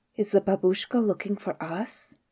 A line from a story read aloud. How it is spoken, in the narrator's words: whisper to each other